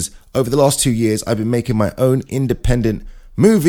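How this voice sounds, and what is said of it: Usual voice. Nothing is said of it.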